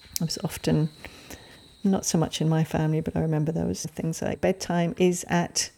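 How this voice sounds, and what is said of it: English accent. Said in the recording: “I grew up in England, you probably can tell from my accent”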